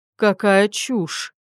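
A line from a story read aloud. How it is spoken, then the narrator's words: Snorted. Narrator (Russian): Фыркнула свекровь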